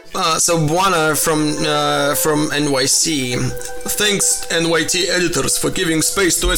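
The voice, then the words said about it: Exaggerated Russian accent. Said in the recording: “I'll do my Russian accent.”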